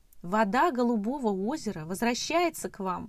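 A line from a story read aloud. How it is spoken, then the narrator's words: Loud announcement. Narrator (Russian): громко объявила Мурка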